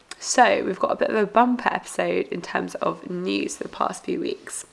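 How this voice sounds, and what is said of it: Unwell, congested-sounding voice. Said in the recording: “as you might be able to tell from my voice, um, I've been a bit uh, under the weather”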